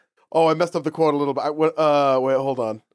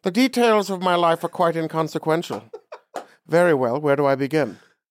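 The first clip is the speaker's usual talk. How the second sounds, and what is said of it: Dr. Evil character voice impression. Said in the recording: “I'm going to try to do it in a Dr. ... Evil voice ... I'm going to give up on the accent.”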